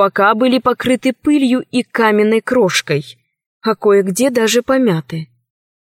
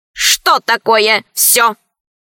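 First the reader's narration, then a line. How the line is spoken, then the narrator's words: Stern question, small robot. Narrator (Russian): строго спросил маленький робот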